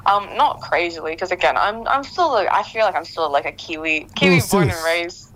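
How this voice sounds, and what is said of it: New Zealand accent. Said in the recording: “Still are a Kiwi, you know. You got a real good accent there.”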